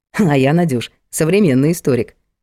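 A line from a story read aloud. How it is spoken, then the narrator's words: Snorting remark. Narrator (Russian): хмыкнул Влад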